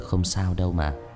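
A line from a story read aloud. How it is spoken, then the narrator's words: Soft smiling speech. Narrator (Vietnamese): Người thanh niên khẽ mỉm cười rồi nói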